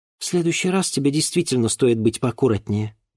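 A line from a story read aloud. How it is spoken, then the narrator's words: Low-voiced agreement. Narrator (Russian): вполголоса согласилась Серафима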